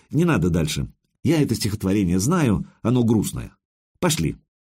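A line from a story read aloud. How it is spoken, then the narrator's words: Said quickly. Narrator (Russian): Найт быстро сказал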